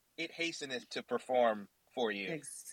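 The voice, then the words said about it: Put-on English accent, archaic speech. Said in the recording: “Do you have to add the English accent? I feel like that makes all of it sound right.”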